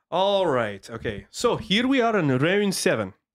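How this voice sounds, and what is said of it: Put-on Scottish accent. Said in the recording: “I'm going to do it with a Scottish accent”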